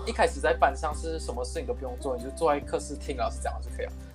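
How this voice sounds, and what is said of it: Malaysian-accented Mandarin. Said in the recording (Chinese): “大家可能从我的口音知道，呃，我不是中国人，我是马来西亚人”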